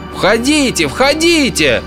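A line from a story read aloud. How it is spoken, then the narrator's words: Yelling. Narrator (Russian): заорал я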